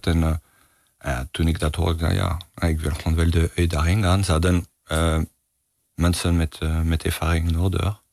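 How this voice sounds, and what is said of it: Charming non-native Dutch accent. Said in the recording (Dutch): “Niet aan mijn accent te horen. ... het ook iets charmants heeft ... die accent is er een... Hij gaat ook niet meer ver”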